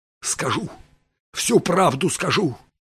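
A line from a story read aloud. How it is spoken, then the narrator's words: Barely audible agitated croak. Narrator (Russian): едва прохрипел Пирс, потерявший от волнения голос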